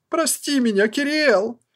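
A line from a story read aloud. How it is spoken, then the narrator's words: Sobbing goblin woman. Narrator (Russian): с рыданием гоблинка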